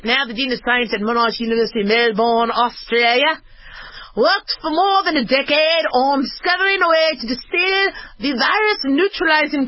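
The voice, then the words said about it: Put-on Australian accent. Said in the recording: “I need to do this in Australian accent.”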